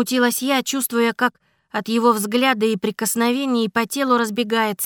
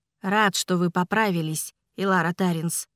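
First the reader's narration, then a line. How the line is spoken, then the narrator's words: Gentle remark. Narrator (Russian): мягко заметил император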